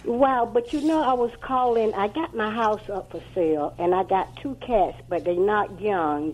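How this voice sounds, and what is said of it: Southern drawl accent. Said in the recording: “I hear the southern drawl right now.”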